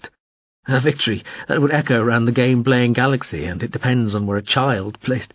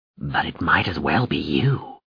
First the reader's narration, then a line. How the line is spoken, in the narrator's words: Morin Skell hissed, floating still closer